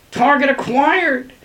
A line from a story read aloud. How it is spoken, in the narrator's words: yelled, who'd apparently mastered his intestinal distress